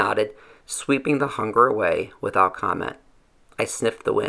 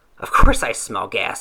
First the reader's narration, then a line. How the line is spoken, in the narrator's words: snapped